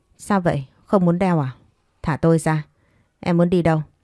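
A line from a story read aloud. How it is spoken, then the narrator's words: Smiling but cold question. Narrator (Vietnamese): Đoàn Vân Thành mỉm cười hỏi, lời nói lại lộ ra vẻ lạnh lùng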